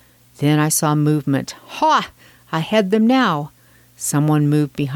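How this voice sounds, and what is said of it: Usual voice. Nothing is said of it.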